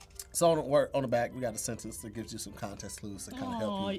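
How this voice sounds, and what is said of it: St. Louis accent. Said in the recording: “make fun of my accent because that's my accent ... St. Louis ... Country”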